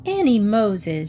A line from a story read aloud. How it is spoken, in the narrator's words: she exclaimed